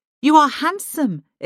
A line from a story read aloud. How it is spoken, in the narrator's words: exclaims Shamhat